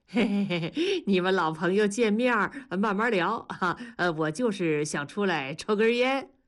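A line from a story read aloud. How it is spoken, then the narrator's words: Chuckling. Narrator (Chinese): 大庄嘿嘿的笑说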